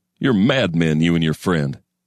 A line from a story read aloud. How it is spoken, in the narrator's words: he'd have laughed, a snorting bull's laughter